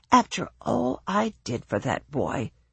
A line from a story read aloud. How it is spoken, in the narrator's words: his grandmother muttered